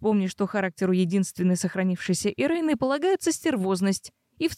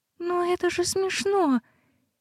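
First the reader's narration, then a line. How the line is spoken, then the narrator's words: Quiet plaintive whine. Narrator (Russian): тихим жалобным голоском ныла Ирис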